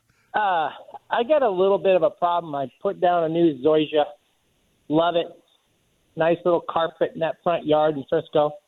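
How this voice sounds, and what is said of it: Northern Minnesota accent. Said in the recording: “This is your northern Minnesotan ... I couldn't tell it all from the accent.”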